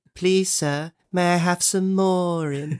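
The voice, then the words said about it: Poor Oliver Twist character impression. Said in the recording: “that terrible impression”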